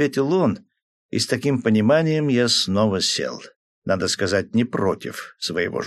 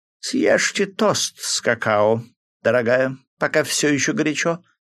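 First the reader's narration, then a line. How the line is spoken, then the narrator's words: Coaxing tone. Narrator (Russian): уговаривающим тоном произнесла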